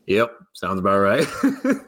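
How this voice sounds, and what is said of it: Impression of brother's cadence and tone. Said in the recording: “really good impression of your brother. That was like the cadence and the tone of that was very Ryan.”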